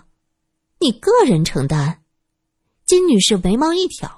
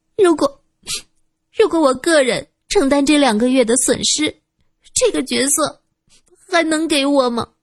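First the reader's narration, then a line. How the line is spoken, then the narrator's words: Choked, sobbing. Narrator (Chinese): 她哽咽道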